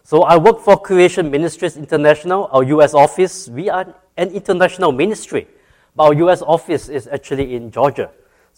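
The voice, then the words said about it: Singaporean-accented English, fast. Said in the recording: “you can already tell I sound different from most of you... I'm from Singapore... I know I have a little bit of an accent, and I'm going to go very fast”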